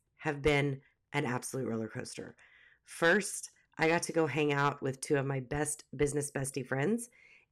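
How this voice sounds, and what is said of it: Sick-sounding voice. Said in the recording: “as you can probably tell by my voice ... I got sick”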